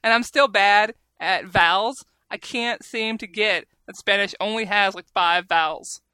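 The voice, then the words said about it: American Southern accent. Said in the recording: “Southerner ... my stupid southern accent”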